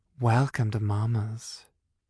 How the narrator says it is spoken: she all but purred

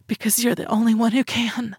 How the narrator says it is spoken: I choked out

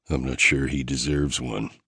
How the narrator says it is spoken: I mumbled

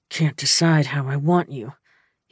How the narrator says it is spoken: he confessed through gritted teeth

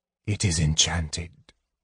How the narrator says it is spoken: Raistlin said softly

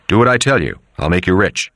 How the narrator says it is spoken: Luca Brasi said harshly

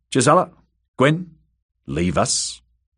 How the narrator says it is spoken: good brother said curtly

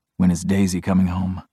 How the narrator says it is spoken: I mumble

